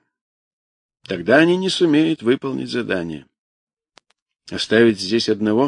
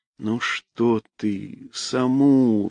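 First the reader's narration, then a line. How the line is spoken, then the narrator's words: Chiding. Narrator (Russian): выговаривал Саша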